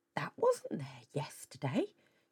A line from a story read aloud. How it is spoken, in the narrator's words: she muttered